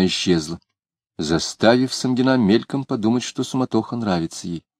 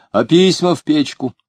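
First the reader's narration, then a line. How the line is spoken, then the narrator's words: Shout through a door. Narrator (Russian): крикнула в дверь комнаты Варвары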